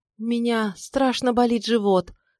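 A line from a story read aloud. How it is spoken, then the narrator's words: Weak voice. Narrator (Russian): сказала слабым голосом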